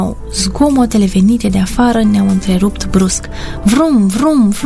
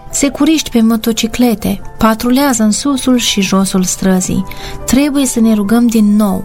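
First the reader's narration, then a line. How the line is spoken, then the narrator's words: Plain. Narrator (Romanian): am spus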